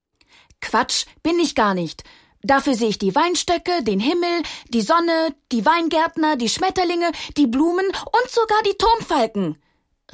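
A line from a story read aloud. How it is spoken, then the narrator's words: Bright voice, quite loud. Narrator (German): rief die helle Stimme nun ziemlich laut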